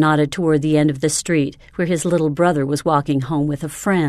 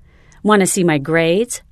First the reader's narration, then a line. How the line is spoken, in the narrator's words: Randy offered eagerly